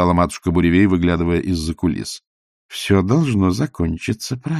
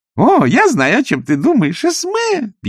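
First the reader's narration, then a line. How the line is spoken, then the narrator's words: Squeak. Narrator (Russian): пискнула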